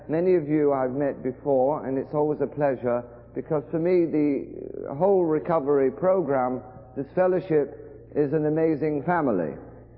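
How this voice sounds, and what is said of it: English accent. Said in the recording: “you probably know that by my accent that I am indeed from England”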